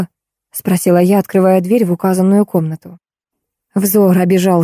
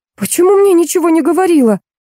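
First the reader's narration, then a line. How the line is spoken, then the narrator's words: Yelling. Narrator (Russian): заорала Рита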